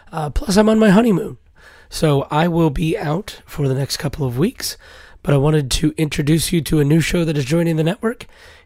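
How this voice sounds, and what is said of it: Hoarse, strained laryngitis voice. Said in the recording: “As you can hear, I have laryngitis again. ... hopefully my voice will be back”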